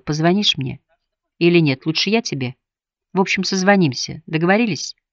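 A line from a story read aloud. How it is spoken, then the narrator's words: Whispered. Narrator (Russian): Шарлотта шепотом сказала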